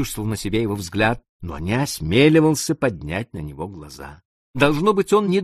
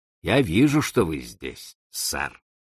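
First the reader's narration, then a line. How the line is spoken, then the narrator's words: Very calm. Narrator (Russian): сказал очень спокойно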